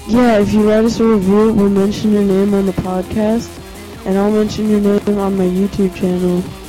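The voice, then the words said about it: Congested voice from a cold. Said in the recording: “I have a cold, so if I sound like crap, that's why.”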